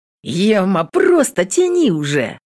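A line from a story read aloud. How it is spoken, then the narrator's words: Giggling. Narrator (Russian): Зара хихикает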